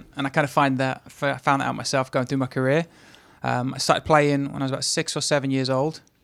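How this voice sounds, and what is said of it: English accent. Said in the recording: “you can tell by his accent ... as you figured by the accent, I'm originally from England”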